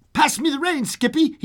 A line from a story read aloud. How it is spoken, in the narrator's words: yelled